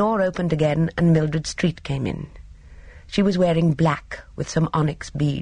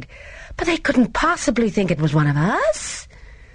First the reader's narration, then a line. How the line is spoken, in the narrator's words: Gina cried